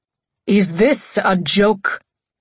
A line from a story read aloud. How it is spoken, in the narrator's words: My father choked on his drink on the other line